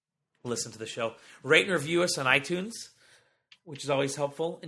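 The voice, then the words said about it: Hoarse, nearly lost voice. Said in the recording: “my voice is almost completely gone. I've been fighting a cold, so a pretty nasty cold.”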